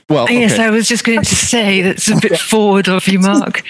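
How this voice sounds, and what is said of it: Lilting British accent. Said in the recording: “lyric British accent”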